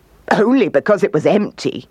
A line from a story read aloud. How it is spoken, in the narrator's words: laughed the kangaroo